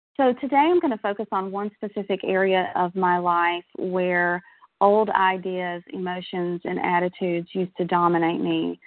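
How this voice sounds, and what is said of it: Shaky voice, recovering from illness. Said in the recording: “I'm just getting over a respiratory bug, so my voice is a little bit shaky.”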